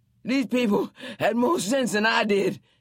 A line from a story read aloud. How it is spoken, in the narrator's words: said as they lay there panting